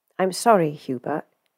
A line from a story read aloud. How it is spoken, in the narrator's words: he said gently